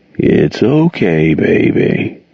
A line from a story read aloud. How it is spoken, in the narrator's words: Jordan crooned in his rocky voice